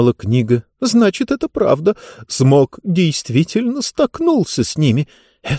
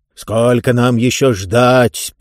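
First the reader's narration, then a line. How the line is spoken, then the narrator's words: Roar. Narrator (Russian): проревел один голос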